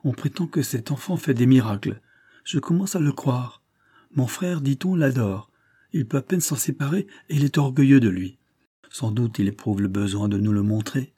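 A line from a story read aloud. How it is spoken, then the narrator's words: Exclaimed. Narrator (French): s'écria-t-elle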